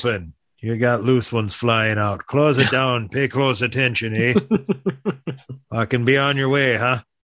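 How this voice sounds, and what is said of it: Exaggerated Wisconsin / northern accent. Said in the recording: “I believe you just pulled off the five accent sentence. That was that was impressive... Around the state of Wisconsin... Are you American, Irish, Canadian? That's that was classy... We got real north... I almost threw in a hoser”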